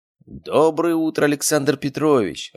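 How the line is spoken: Joyful harried exclamation. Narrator (Russian): радостно воскликнула, взмыленная секретарша

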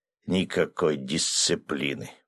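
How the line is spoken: Muttering to himself, elder. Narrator (Russian): пробормотал про себя староста

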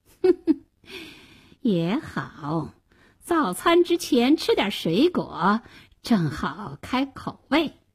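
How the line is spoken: Sly cold sneer. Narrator (Chinese): 大灰狼狡猾地冷笑了一声说

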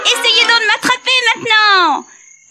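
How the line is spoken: Shouted. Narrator (French): cria Tom

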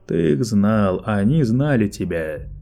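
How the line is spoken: Plain. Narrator (Russian): Сказал Лето

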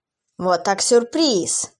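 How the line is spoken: Angry laughter. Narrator (Russian): зло засмеялся Томас

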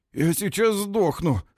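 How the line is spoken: Hoarse whisper. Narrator (Russian): хрипло шепчет Дан

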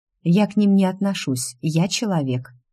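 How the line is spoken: Calm reply. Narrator (Russian): спокойно отозвалась я

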